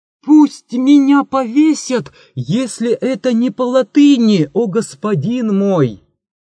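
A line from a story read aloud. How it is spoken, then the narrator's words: Sudden shout. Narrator (Russian): вдруг закричал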